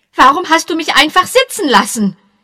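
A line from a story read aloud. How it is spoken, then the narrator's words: Angry call. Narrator (German): rief zornig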